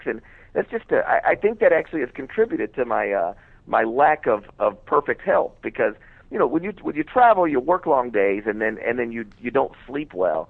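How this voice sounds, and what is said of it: Worn-out, run-down voice. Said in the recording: “You could probably tell in my voice, I'm broken down a little bit right now. ... You sound a little broken down.”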